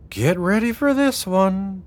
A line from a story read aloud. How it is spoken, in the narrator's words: Delilah sighed